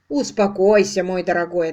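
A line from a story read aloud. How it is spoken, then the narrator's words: Plain. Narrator (Russian): ответил лорд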